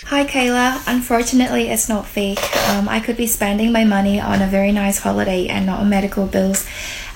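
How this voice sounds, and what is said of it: Irish-sounding accent. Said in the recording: “The Australian lady who now sounds Irish.”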